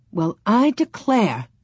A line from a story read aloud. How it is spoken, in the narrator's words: Ma exclaimed